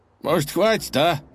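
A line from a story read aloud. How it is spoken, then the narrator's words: Sighing. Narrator (Russian): вздохнул один из кочевников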